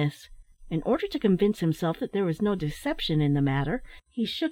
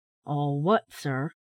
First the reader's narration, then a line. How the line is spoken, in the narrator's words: inquired the old gentleman, in a deep, metallic voice